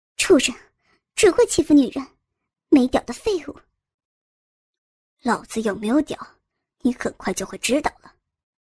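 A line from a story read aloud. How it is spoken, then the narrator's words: Panting, vicious cursing. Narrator (Chinese): 林贤惠喘口气，恶狠狠地瞪着郑有兵，骂道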